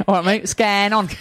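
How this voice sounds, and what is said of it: Fake London Cockney accent. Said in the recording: “we say it with this fake... with this London, with this Cockney accent... fake... Cockney”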